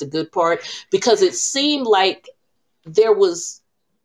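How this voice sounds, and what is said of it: Usual voice. Nothing is said of it.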